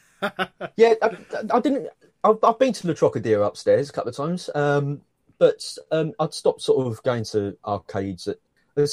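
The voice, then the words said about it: London English accent. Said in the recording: “I'm assuming you're from London ... I kind of worked it out from your accent, mate.”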